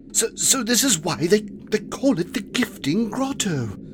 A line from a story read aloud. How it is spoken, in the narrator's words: Quilby breathed, awestruck